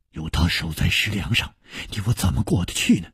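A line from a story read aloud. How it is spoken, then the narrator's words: Whispered. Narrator (Chinese): 南宫翎悄声说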